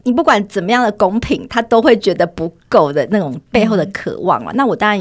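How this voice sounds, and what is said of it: Usual voice. Nothing is said of it.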